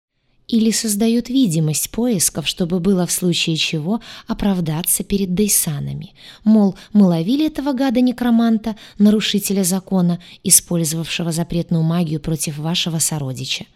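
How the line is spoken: Plain. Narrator (Russian): ответила она ему

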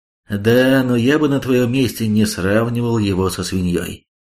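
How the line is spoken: Gloomy. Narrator (Russian): мрачно заявил Хонда

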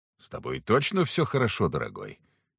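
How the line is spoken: Overly delicate, calm question. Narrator (Russian): Чересчур деликатно и спокойно для себя уточнил

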